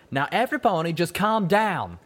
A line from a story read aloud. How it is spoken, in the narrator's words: Calamity said loudly